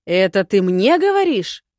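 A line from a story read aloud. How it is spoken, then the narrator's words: Roar. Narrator (Russian): взревел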